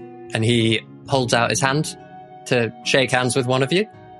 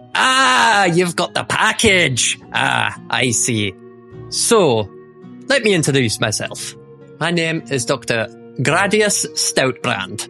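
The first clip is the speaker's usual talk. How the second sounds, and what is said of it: Character voice with wandering accent. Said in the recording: “These accents are going to go all over the place.”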